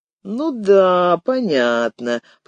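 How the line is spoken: Drawled. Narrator (Russian): протянул приятель

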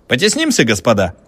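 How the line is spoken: Cheerful warning. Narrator (Russian): весело предупредил студент

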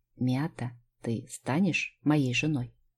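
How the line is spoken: Quiet question. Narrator (Russian): тихо спросил Кристофер

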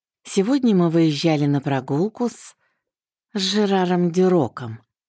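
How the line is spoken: Interrupting through gritted teeth. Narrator (Russian): сквозь зубы перебил

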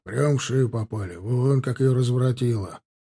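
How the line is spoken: Grumbling. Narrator (Russian): проворчал он

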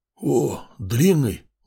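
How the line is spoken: Surprised sleepy croak. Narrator (Russian): удивленно прохрипел заспанный голос

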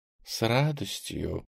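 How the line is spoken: Purring. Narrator (Russian): промурлыкала

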